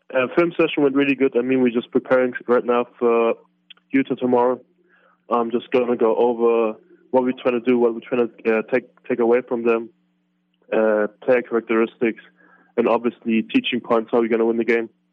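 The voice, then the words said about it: Speaks with a noticeable accent. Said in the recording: “you've got the accent”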